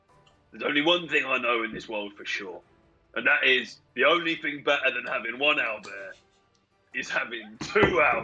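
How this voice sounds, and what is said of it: Speaking in a character voice. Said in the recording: “do this in character voice”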